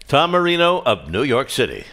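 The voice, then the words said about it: Announcer voice. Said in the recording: “That's a great announcer voice.”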